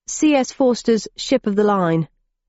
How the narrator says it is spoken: replied the cabbie

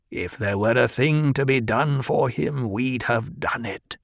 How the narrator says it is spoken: the old woman growled

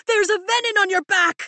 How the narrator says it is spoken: I shout at Tern

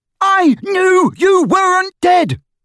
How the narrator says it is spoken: bellowed Ron, drowning her voice

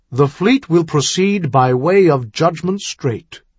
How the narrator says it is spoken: he announced in a firm, commanding tone

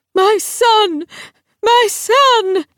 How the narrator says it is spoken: she cried out, shrill and cracked

